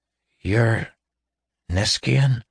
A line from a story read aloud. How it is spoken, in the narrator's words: He croaked